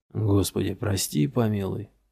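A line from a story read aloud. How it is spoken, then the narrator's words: Mumbled. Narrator (Russian): пробормотал Йеман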